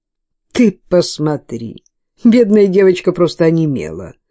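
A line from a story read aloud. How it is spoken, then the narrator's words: Laughing mother. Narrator (Russian): рассмеялась мать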